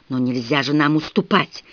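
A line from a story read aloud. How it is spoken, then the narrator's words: Fervent whisper. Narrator (Russian): горячо зашептала кузина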